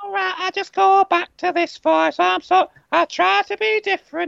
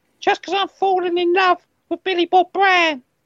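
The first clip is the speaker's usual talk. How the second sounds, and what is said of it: Put-on Australian accent, sounds Cockney. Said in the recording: “I've got my Australian accent up for it ... He sounds like a Cockney ... Sounds like a Sheila ... Sounds like a Sheila who's just got into like the nag's head”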